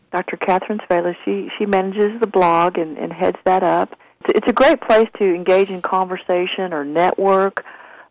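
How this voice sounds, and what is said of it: Southern US accent. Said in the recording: “Where did you get your southern accent? ... I was born in Texas ... you sound like home. Sound like the same kind of accent.”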